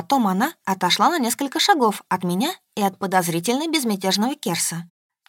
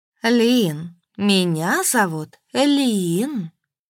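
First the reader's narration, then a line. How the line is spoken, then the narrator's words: Drawled. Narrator (Russian): Протянула серебристая девушка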